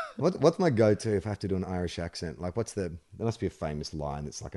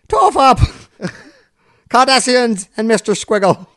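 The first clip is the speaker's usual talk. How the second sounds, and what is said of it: Poor attempt at Irish accent. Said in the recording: “You can't do the Irish accent. ... What is that accent? What part of Ireland do you think you're from?”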